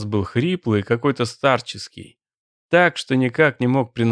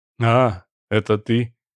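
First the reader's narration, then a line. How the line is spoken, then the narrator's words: Muttering. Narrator (Russian): буркнул Певцов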